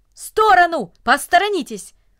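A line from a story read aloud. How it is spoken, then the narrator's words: Brisk busy shout. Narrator (Russian): Деловито, как будто у него было какое-то срочное дело, он поспешил вниз по ступенькам и даже закричал людям, которые несли ведра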